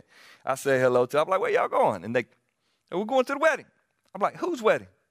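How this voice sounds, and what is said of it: South Carolina Southern accent. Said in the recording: “South Carolina boy. I cannot hide it with this accent.”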